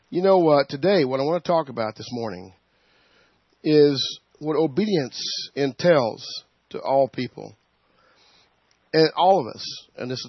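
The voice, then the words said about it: Hoarse voice. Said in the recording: “I'm a little hoarse this morning ... I've had a little bit under the weather, so I'm a little bit hoarse.”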